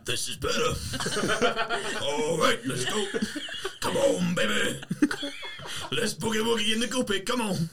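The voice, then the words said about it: Extra deep character voice. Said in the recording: “How does that affect your voice? ... It's even deeper.”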